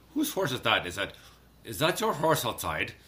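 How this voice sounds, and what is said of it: Put-on Irish accent, poorly done. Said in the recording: “I figured I'd do the Irish accent ... bad accent”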